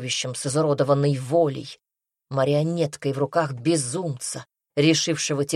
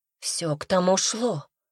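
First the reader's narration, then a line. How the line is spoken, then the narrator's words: Hoarse crying out. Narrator (Russian): хрипло вскрикивала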